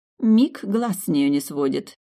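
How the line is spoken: Irritated snort. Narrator (Russian): раздраженно фыркнула женщина

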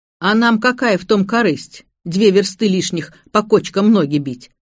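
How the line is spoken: Rude, resentful interruption. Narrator (Russian): грубо оборвал старший брат Демьян, сильно недолюбливавший старосту

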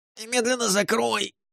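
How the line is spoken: Squeaky, nose-pinched voice. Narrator (Russian): пропищал Ларт, зажав нос рукавом

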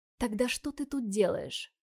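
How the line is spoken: Whispered into ear. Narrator (Russian): Спросил второй, прошептав мне на ухо

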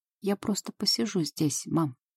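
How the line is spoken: Quiet. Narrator (Russian): сказал он тихо

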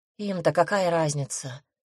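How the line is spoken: Sighing. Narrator (Russian): вздохнула я

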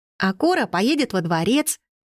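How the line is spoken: Joyful exclamation. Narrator (Russian): радостно воскликнула Лиззи

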